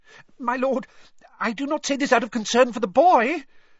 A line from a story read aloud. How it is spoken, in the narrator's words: said Wormtail, his voice rising squeakily